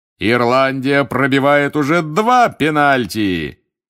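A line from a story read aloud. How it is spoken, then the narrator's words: Loud bark. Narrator (Russian): гаркнул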